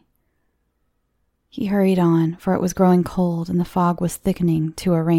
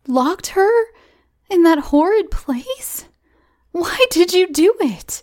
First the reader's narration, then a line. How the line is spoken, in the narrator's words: exclaimed Cora indignantly